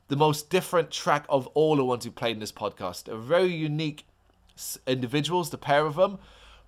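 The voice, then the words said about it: Voice going hoarse, strained. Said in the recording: “Sorry it's probably not as smooth as before. Like I said, I'm beginning to lose my voice.”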